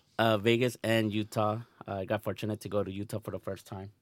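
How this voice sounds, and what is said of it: Voice sounds a little off. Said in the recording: “Sorry for my voice. It's a little bit off. Just came from vacation. Change of weather.”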